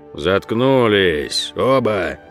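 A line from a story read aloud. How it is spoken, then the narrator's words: Through barely parted lips. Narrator (Russian): Едва разжимая губы, процедил Гроль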